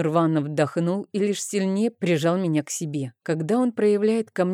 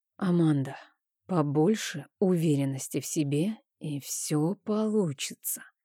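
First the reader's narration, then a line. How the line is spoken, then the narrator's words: Whisper in ear. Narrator (Russian): прошептал мне на ушко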